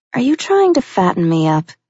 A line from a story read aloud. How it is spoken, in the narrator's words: she asked in a teasing voice